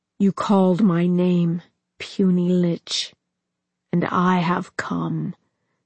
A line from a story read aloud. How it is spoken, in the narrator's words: said the demon, his voice resonant and seeming to vibrate along Arthas's very bones